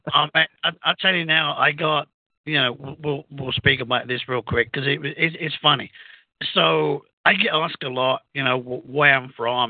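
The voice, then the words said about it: British accent. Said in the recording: “that's a really predominant accent you have ... I'm an albino Mexican with a British accent”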